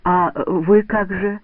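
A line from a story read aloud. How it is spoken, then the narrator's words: Unsure boy asking. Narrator (Russian): неуверенно спрашивает мальчик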